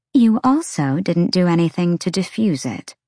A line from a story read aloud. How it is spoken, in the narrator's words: Celestina answered coolly